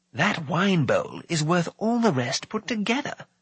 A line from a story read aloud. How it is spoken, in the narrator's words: Fluda whispered to Taran